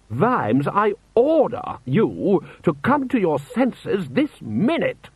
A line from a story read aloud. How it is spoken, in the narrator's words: roared Lord Rust